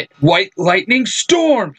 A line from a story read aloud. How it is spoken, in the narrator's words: he yells